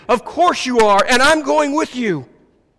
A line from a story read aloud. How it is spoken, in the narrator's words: yelling back to him